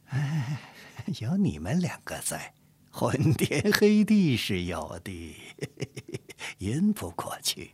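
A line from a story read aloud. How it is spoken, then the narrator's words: Playful laughing. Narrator (Chinese): 嬉笑道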